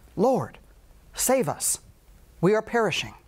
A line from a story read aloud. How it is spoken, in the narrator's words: Greatly afraid, the disciples pleaded